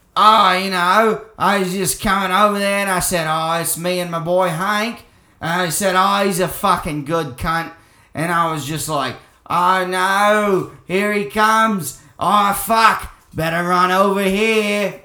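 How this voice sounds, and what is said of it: Jim Jefferies impression, Australian accent. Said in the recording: “I can do like a Jim Jefferies impression”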